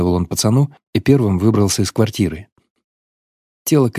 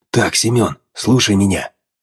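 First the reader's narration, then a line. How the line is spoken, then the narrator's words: Father whispering. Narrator (Russian): зашептал батя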